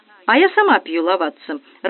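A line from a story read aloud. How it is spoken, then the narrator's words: Joyful announcement. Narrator (Russian): радостно возвестила хозяйка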